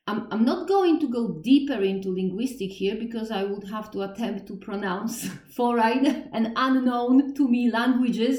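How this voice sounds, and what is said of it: Thick Polish accent. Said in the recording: “with my thick Polish accent”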